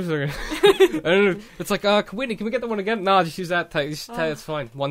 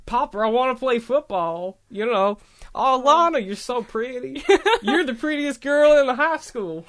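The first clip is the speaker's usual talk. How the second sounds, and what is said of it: Put-on rural hick accent. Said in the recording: “Oh, with, like, a Hicksville accent.”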